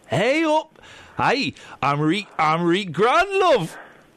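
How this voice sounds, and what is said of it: Unconvincing put-on Geordie accent. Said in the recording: “I was doing it thinking it was quite a good accent ... You've just moved county, that's not Geordie.”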